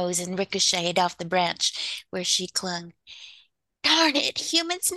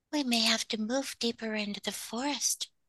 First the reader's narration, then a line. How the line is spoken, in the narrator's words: she sighed